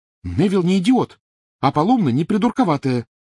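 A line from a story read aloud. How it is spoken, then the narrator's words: Exclaimed. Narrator (Russian): воскликнула Гермиона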